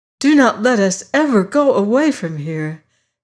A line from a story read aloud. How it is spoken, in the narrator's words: she cried